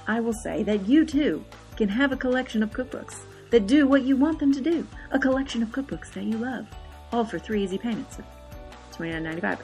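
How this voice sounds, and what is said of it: Exaggerated infomercial announcer voice. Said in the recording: “In my best infomercial voice”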